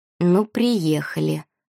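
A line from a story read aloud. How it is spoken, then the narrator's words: Muttering. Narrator (Russian): пробормотала Валерия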